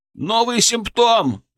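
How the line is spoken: Shout. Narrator (Russian): кричал кто-то

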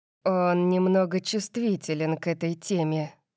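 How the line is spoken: Mocking whisper. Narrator (Russian): насмешливо прошептал нам Калиб

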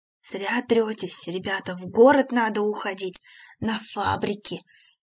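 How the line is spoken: Low thoughtful drone. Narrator (Russian): Негромко и раздумчиво гудел он

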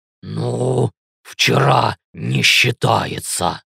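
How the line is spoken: Growl. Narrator (Russian): рыкнул Ленс

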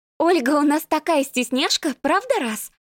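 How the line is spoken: Forced cheerfulness. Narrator (Russian): нарочито-бодро сказала Маришка

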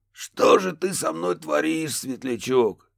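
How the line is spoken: Pained exhale, ghostly voice. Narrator (Russian): С почти ощутимой болью выдохнул призрак

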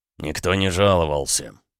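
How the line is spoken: Grumbling. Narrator (Russian): пробурчал Макеев

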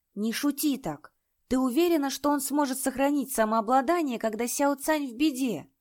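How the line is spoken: Sighing. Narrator (Russian): Лиюнь вздохнул

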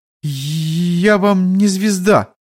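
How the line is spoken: Uncertain, drowned by crashing. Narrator (Russian): как-то неуверенно ответила девушка, и голос ее потонул в раздавшемся на верхних этажах грохоте обрушившихся перекрытий

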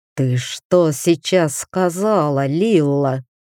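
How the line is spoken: Wall-shaking roar. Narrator (Russian): прорычал император, и от его рыка задрожали стены

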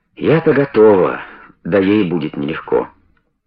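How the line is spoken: Evasive reply. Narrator (Russian): ответила она уклончиво

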